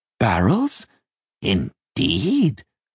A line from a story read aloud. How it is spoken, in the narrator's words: the doctor cackled